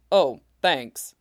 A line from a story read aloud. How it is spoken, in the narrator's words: Zoro grumbles